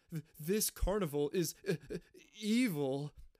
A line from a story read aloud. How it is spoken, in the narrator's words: Brad stammers